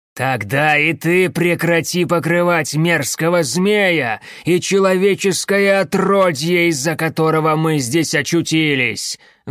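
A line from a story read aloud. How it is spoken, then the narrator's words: Loud. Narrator (Russian): громко сказал Кориандр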